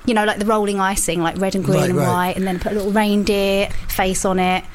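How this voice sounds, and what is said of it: Essex English accent. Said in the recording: “Can you tell the Essex accent? ... As soon as you mentioned it, I went, yeah, that makes a lot of sense.”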